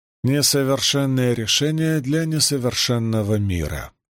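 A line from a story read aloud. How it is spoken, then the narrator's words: Sighing. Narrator (Russian): вздохнула Рисон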